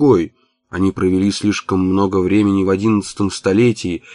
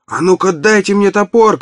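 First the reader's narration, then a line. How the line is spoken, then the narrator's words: Shouted by worker. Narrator (Russian): крикнул один из рабочих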